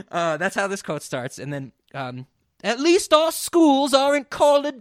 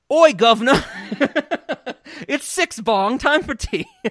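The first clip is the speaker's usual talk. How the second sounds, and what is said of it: Put-on British accent. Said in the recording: “I'm going to read my quote to the best of this ability in the British accent”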